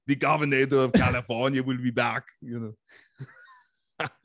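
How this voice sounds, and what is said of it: Imitates another person's voice. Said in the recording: “What's your Schwarzenegger like? ... That's pretty good too.”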